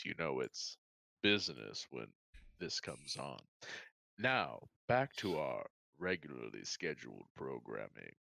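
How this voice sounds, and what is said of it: Smooth radio announcer voice. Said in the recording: “This is my mm-hmm. smooth radio voice.”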